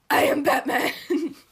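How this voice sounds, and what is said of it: Batman character voice. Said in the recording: “do my Batman voice”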